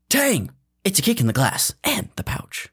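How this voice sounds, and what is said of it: Imitates a TV commercial announcer. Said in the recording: “do my best impression ... The tagline at the end of almost every commercial”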